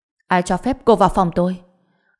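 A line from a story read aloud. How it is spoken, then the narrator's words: Furious, through gritted teeth. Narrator (Vietnamese): anh mắt đỏ ngầu tức giận nghiến răng nói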